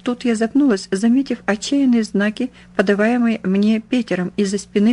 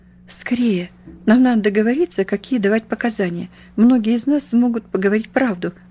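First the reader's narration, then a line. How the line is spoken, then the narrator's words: Hoarse croak. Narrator (Russian): прохрипела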